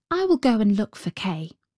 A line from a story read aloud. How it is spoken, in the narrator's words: said Gerda